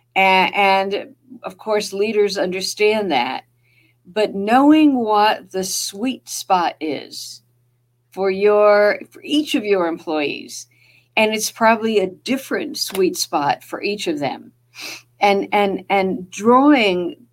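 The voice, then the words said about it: New Jersey accent. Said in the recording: “that's my Jersey accent”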